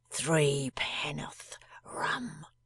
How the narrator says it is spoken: faintly said

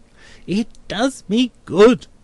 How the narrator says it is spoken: cries Mr

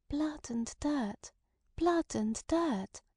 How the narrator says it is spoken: dreamily repeated twice

